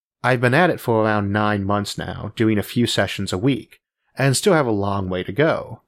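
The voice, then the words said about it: Hard-to-place accent, slight speech impediment. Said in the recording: “The accent, whatever it is, and no one has ever figured it out, is here to stay ... I'll have the impediment gone”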